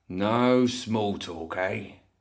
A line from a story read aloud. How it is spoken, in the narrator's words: Mortimer grumbled